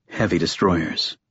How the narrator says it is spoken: Lash murmured

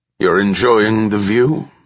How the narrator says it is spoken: Lo Quen asked gruffly

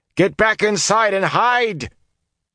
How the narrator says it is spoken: The swelling roar of fighting and dying swallowed his words

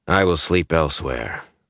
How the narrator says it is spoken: Gaul said stiffly

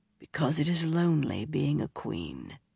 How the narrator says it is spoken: he said softly

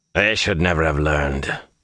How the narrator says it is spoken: Han muttered

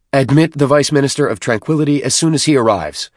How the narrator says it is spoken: Fortitude snapped

